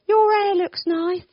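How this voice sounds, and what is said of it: Put-on Essex accent. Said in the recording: “Why the Essex accent?”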